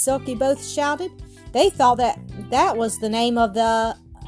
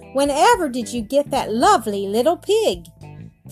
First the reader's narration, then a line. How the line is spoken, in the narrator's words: Bear exclaimed